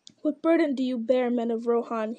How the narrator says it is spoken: he cried

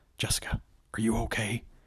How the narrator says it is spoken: She whispered

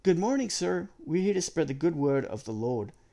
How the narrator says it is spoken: exclaim with wide smiles

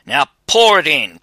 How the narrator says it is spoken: cried the soldier

